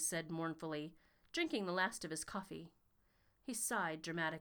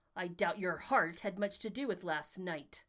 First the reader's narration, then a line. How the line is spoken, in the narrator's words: Arthur snapped